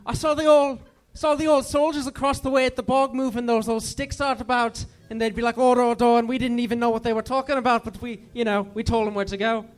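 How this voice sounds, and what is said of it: Put-on Irish accent. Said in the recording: “Use an Irish accent. ... Did you have an Irish accent during the play?”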